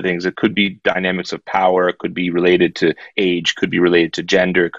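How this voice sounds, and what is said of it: North American accent. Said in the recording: “I would stand out as, you know, someone from either North America or somewhere. I don't necessarily come from a London accent, so people identify me as, you know, either Canadian or somewhere in the States”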